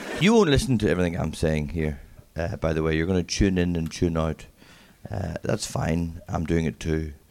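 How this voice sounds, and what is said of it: Strong accent, mumbled speech. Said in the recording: “I have a strong accent, sorry about this. I mumble quite a bit as well”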